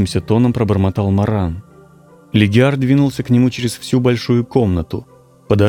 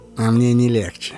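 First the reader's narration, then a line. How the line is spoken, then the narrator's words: Hoarse. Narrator (Russian): хрипло сказал колдун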